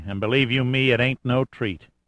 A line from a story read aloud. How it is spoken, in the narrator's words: said Gerhardt grimly